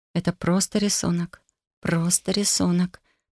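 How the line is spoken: Self-soothing whisper. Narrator (Russian): прошептала, пытаясь успокоить себя

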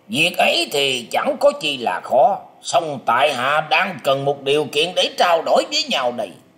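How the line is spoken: Loud maniacal laughter. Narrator (Vietnamese): Triển Hoành cất tiếng cười to hai hả như điên dại nói

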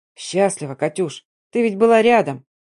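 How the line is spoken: Soft chuckle. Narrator (Russian): Он мягко усмехнулся

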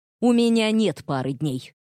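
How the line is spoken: Snapping retort. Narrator (Russian): огрызнулся

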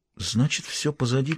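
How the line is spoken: Quiet. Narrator (Russian): тихо произнесла она

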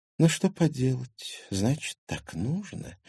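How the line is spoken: Sighing. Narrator (Russian): вздохнула Виктория

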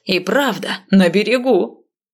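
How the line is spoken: Joyful crowd murmuring. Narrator (Russian): Народ радостно забормотал

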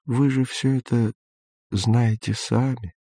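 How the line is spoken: Gentle, old man. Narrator (Russian): ласково сказал старик

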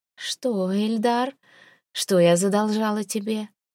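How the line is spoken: Soft, feigned drunkenness. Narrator (Russian): Мягким, притворно пьяным голосом интересуюсь я

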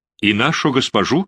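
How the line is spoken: Plain. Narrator (Russian): спросил Рейнальдо

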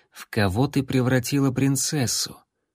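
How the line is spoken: Quiet whisper. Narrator (Russian): Рексволд тихо прошептал

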